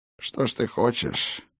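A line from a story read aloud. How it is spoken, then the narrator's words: Hoarse smirk. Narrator (Russian): Бран хрипло усмехнулся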